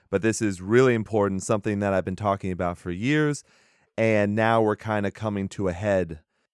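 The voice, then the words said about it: Raspy voice from a cold. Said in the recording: “my voice is a little bit more raspy. The cold is getting to me a little bit.”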